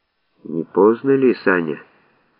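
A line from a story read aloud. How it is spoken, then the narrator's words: Sad question. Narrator (Russian): грустно спросил Алик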